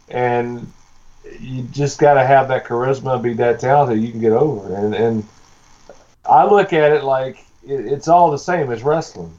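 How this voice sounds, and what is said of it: Strong regional accent. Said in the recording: “I'm not changing my accent. I can't change my accent. God gave me this”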